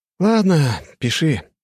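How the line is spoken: Sighing. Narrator (Russian): вздохнул я

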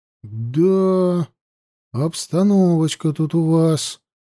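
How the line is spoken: Puzzled drawl. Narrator (Russian): протянула озадаченно Лёшка

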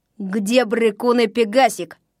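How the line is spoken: Stern question. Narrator (Russian): строго спросил

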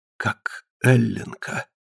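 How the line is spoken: Barely audible whisper. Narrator (Russian): едва слышно шепнула Эрис

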